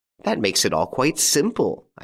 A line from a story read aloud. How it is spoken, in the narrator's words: exclaimed